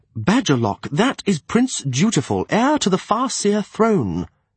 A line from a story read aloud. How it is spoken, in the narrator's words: he reminded me sharply